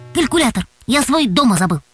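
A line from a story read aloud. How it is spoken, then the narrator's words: Quick retort. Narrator (Russian): быстро нашелся Антон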